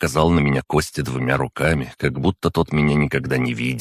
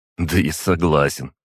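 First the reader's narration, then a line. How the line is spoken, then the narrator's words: Snorting grunt. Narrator (Russian): хмыкнул Костя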